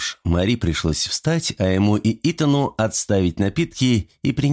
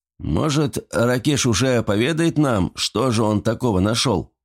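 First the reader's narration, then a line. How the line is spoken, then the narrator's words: Plain. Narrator (Russian): наконец спросил Кинг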